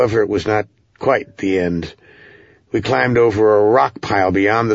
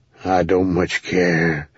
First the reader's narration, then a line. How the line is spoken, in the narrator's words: Ram grumbled